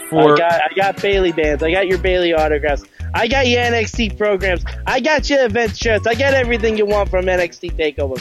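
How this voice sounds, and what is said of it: Put-on Brooklyn accent. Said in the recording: “a Brooklyn accent.”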